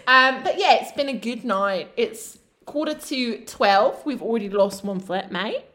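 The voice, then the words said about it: Put-on accent, badly done. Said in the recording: “Your accent is terrible ... I'm gonna stop this accent.”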